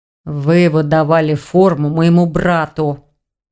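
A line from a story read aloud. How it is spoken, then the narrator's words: Growled. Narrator (Russian): прорычал Рейн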